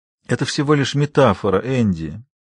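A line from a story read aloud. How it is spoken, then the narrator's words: Quiet, tender. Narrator (Russian): говорил он тихо и ласково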